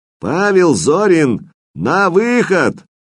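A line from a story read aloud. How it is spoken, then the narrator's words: Shout in cracking voice. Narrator (Russian): прокричал срывающимся голоском сержант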